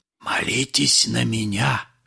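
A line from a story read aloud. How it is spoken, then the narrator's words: Whisper. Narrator (Russian): шептал Остап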